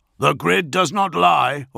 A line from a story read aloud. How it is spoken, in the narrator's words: Augustine barked